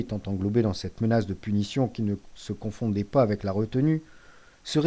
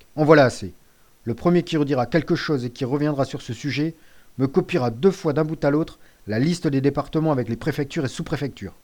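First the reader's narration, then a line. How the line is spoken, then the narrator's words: Curt, dry. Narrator (French): fit le maître d'un ton sec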